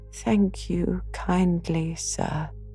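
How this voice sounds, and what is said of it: Feeble, weak voice. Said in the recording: “in a feeble voice.”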